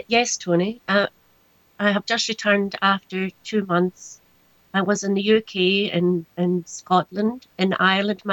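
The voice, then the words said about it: Scottish accent. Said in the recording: “that glorious Scottish accent”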